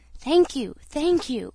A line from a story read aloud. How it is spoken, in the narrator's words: exclaimed